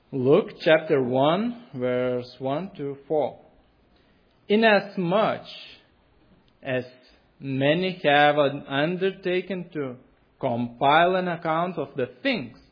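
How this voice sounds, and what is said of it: Accented English speech. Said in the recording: “It will be easier to you to follow because of my accent”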